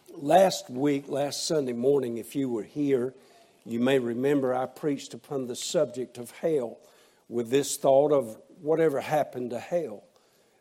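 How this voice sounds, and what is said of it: Raspy, strained voice. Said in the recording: “My throat's a bit raspy this morning.”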